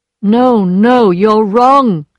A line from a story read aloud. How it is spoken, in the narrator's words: she replied in a strong voice